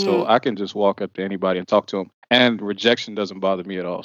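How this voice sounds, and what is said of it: Smooth late-night radio voice. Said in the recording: “that voice, that radio voice that will catch a lady ... The Quiet Storm voice at 10 o'clock at night ... The smooth jazz”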